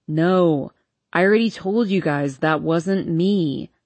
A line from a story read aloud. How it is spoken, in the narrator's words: he groans